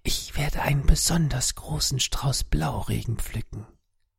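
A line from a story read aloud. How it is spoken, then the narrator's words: Whispering. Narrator (German): stimmt mir bereitwillig zu und flüstert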